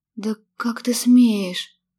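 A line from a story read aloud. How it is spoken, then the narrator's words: Breathless exhale. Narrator (Russian): выдохнула я, застрявший воздух из легких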